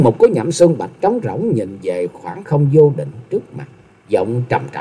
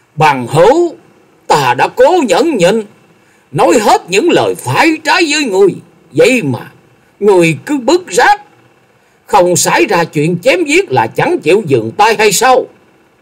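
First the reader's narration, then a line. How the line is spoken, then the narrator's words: Angry through gritted teeth. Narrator (Vietnamese): Lòng nhẫn nại của Lâm Tường đã đến giới hạn cuối cùng, y nghiến chặt răng rồi quát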